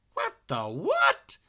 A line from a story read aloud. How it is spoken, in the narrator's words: Billy exclaimed